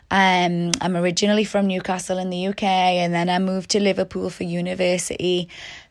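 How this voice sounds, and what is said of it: British accent. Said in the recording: “I'm originally from the UK, as some of you might have heard in my accent”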